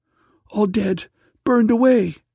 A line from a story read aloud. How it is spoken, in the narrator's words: cried the daughter